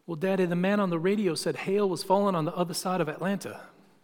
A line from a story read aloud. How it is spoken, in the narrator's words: in her sweet little southern voice, she said